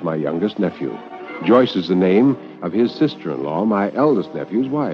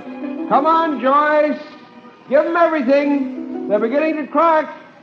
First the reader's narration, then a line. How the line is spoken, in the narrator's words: one voice called out